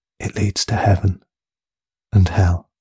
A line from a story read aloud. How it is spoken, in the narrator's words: said quietly